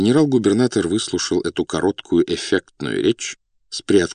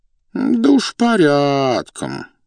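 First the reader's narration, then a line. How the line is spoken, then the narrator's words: Drawling. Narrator (Russian): протянул князь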